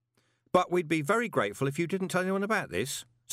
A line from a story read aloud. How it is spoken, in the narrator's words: said Carlton quickly